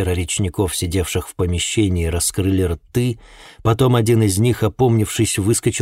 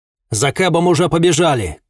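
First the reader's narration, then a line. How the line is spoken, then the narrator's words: Shouted. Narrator (Russian): крикнул я Блэру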